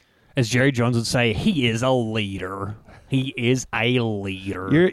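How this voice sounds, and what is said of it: Put-on Southern accent. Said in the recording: “Your Southern accent's about as good as what's his name from LSU?”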